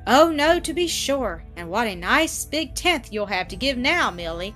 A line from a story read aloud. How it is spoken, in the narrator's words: exclaimed Annis